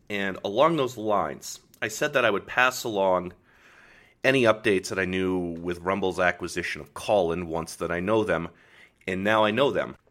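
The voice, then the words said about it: Rough morning voice. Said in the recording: “My voice is a little, I still have that morning voice”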